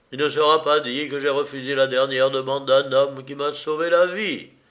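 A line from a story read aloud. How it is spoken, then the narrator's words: Exclaiming. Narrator (French): s'écria le docteur Saunier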